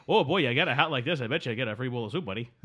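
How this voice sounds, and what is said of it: Impression of a comedian's voice. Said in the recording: “a Canadian doing an impression of Rodney Dangerfield”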